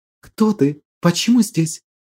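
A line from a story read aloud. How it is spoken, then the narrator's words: Barely audible whisper, maiden. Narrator (Russian): Едва слышно прошептала дева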